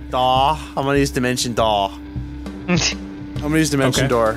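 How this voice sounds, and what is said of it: Frat bro character voice. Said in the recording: “I'm losing my accent for some reason. My frat bro”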